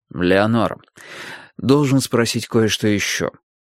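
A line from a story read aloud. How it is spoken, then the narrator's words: Soft. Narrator (Russian): мягко сказал Страйк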